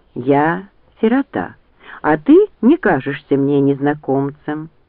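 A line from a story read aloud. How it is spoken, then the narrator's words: Calm objection, young woman. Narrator (Russian): спокойно возразила девушка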